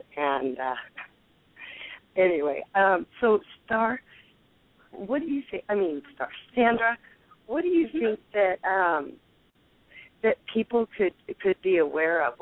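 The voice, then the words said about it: Hoarse voice. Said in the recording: “hoarse voice. I'm kind of battling a cold, so I excuse my hoarseness.”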